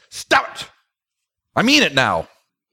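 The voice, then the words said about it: Stern fatherly warning voice. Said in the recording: “you get the dad voice ... this has been my dad voice”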